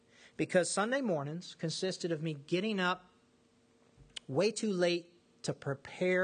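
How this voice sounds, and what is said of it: Usual voice. Nothing is said of it.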